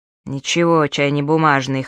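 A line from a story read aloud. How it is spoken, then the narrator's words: Snorting. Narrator (Russian): хмыкнул Цзинь Юаньбао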